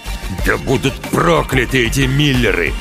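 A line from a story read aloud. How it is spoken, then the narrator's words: Growl. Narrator (Russian): прорычал отец девочки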